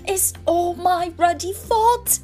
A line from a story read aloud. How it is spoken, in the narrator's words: he sobbed, his face in his hands